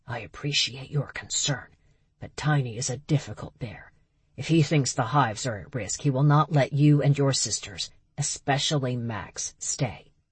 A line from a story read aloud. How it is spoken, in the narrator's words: whispered back